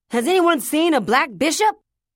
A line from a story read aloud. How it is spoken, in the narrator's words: a man holding a chessboard high over his head like a waiter, looking all around him on the pavement, shouting